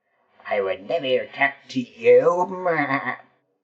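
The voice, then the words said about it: Put-on creature character voice. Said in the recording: “says the Fleabag Chupacabra in my best Fleabag Chupacabra voice.”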